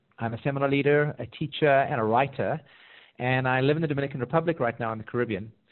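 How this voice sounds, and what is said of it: South African accent. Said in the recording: “my accent, I'm originally from South Africa”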